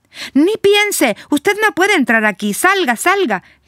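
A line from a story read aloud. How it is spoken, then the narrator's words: Shouting. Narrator (Spanish): le grita Rosa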